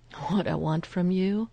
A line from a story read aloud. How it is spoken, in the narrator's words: Phil laughs awkwardly